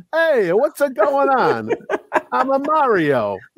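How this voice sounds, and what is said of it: Bad put-on Italian accent. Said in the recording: “It was a bad Italian accent”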